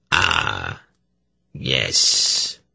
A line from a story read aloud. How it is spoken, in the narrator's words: he murmured